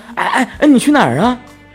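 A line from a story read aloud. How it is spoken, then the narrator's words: Calling out after. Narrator (Chinese): 何玉在身后喊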